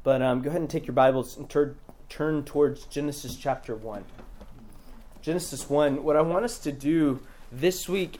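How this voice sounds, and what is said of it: Hoarse, strained voice. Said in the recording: “I think my voice has been going out all week, so I'll do my best to stay speaking clearly”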